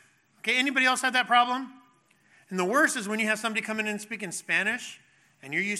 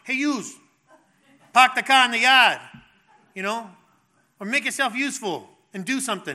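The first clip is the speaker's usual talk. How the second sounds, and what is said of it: Imitated Rhode Island accent. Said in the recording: “If they were from Rhode Island ... And you start to talk like them.”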